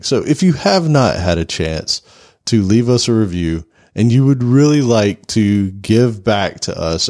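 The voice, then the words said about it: Deep late-night DJ voice. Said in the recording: “I naturally have the late night DJ voice right now because of pollen”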